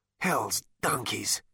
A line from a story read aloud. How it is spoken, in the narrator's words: muttered Zaphod